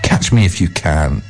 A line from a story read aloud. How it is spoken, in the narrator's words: laughed this wonderful tea kettle